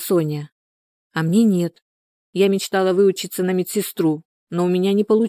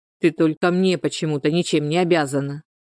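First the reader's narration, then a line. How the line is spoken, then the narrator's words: Grumble. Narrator (Russian): проворчал Герман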